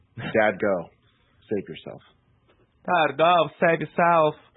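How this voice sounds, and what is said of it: Imitates another person's voice. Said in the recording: “bad walking impression ... You nailed it.”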